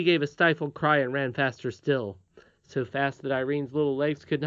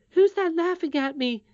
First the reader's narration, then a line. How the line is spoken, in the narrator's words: said the princess, trying to keep in her sobs and running too fast for her grazed knees